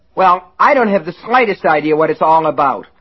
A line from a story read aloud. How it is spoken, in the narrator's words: Lester shouted